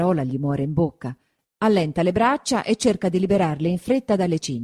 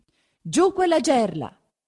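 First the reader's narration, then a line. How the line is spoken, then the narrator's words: Shouting. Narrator (Italian): si grida intanto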